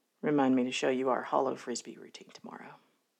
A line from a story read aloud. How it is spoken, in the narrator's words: Catherine murmured, voice lost to her husky register